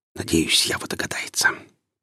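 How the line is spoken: Whispered under breath. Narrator (Russian): прошептал себе под нос Гриф

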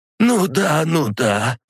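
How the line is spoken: Wheezy voice. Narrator (Russian): просипела Елена Александровна

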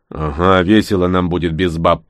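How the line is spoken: Grumbling. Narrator (Russian): проворчал Кошкин

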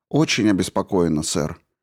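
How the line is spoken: Calm agreement. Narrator (Russian): спокойно согласилась Дипика

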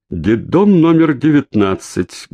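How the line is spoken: Loud, clear stranger's voice. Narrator (Russian): громко и отчетливо произнес за его спиной незнакомец

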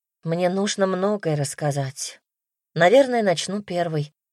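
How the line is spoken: Sighing. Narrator (Russian): вздохнула

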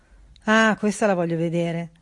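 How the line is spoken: Sarcastic. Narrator (Italian): disse con tono sarcastico

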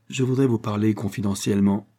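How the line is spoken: Disconcerted stammer. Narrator (French): balbutia Léon interloqué

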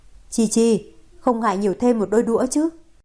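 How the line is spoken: Smiling. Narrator (Vietnamese): Cố Chi Dân ... mỉm cười nói

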